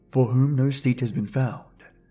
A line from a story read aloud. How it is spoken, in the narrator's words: murmured